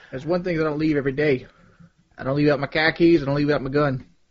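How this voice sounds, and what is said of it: Put-on Boston accent. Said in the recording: “The Boston accent... It's 1 out of 10. I'd give it a 6... it's not a bad Boston accent”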